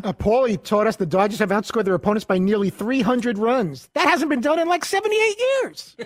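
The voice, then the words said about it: Imitates another person's voice. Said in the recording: “his Tim Kirchner impersonation? ... Tim Kirchner voice”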